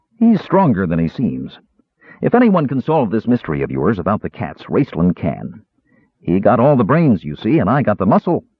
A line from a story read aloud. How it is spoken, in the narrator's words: the big man said cheerfully